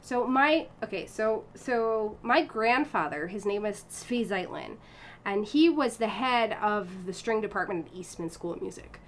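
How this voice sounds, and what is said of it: American accent. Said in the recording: “you've got an American accent ... you've got an American accent because you grew up here in the U.S.”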